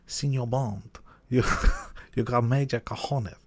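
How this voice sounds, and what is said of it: Imitates a film character's accent. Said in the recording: “Should I do the accent? ... Good impression.”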